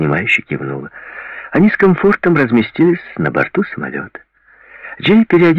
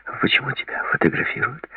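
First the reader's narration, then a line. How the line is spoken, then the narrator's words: Woman whispering. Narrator (Russian): прошептала женщина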